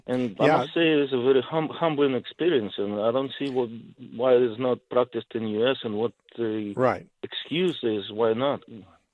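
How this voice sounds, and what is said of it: Eastern European accent. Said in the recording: “it sounds like you have an Eastern European accent”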